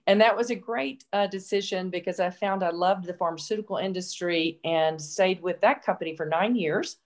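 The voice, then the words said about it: Memphis, Tennessee accent. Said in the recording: “Shearing Plow is in Memphis, Tennessee. So that's the accent.”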